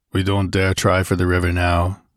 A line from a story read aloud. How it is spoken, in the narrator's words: grunted Conan